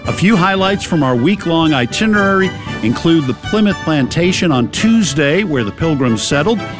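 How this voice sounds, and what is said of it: Boston accent. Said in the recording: “it's a Boston accent”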